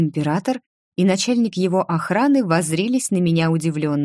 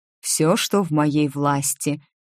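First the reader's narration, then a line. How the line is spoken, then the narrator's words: Solemn. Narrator (Russian): торжественно сказал его величество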